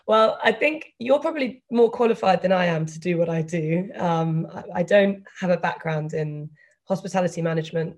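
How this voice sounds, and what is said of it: British accent. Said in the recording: “I'm British, which the accent I think is probably a giveaway”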